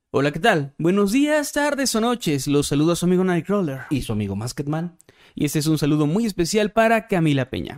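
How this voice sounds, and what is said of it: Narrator voice. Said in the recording (Spanish): “hablando con voz de narrador”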